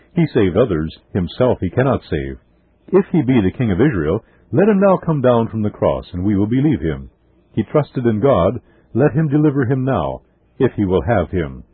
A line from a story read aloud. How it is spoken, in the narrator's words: With shuddering horror, they remember how, wagging their heads in satanic exultation, they exclaimed